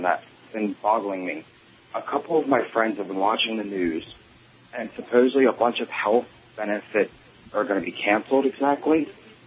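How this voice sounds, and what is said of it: New Jersey / Delaware accent. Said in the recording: “I love that accent. He's got that. He's from my neck of the woods, Jersey, Delaware.”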